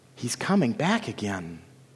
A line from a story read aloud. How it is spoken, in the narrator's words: Lily whispered